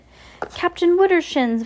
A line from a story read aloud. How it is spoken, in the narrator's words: Violet cried over the scraping sound